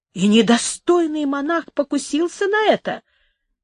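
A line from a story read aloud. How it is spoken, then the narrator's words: Exclaimed. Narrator (Russian): воскликнул Доминго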